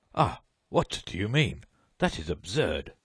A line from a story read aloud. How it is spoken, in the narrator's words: The judge, nonplussed for a moment, exclaimed